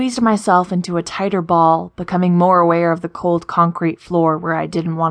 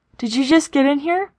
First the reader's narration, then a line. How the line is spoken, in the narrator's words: asked, stifling a yawn